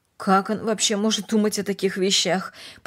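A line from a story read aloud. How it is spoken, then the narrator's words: Muttering. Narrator (Russian): пробормотала Эстер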